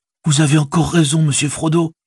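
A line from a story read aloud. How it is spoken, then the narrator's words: Delighted exclamation. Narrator (French): s'écria Sam ravi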